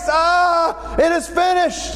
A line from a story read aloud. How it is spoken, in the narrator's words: At the moment that Jesus dies, he cried out with a loud voice